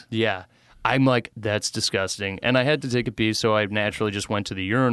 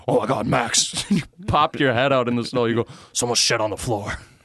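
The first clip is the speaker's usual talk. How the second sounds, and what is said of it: Imitates another person's voice, breathless, disgusted. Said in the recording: “your impersonation of your dad? ... He was disgusted. He couldn't let it out until he's like, someone shit on the floor. He's like out of breath.”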